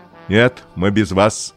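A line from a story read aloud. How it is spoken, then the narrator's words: Father speaking rudely. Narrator (Russian): грубо сказал папа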